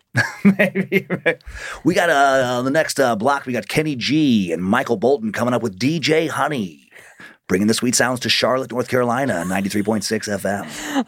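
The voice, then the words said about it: Gravelly old-school radio DJ voice. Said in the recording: “It's my radio voice ... That's my old school radio voice ... like the gravelly”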